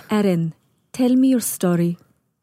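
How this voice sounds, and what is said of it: Imitates another person's calm, firm accent. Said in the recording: “this amazing accent that I cannot duplicate ... She's just got this beautiful accent, and she's very firm and strict ... It's calming, but also you're afraid of her a little bit.”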